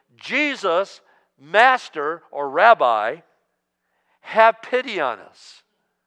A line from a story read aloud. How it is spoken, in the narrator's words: They ... called out in a loud voice